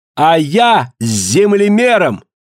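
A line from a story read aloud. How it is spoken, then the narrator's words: Emboldened sudden shout. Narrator (Russian): словно чувствуя поддержку Ка, Фрида вдруг ... крикнула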